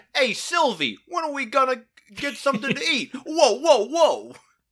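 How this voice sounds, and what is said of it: Put-on classic Brooklyn accent. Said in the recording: “has a classic Brooklyn accent.”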